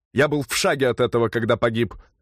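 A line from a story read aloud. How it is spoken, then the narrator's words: Sharp grumpy reply. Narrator (Russian): резко и сварливо ответил археолог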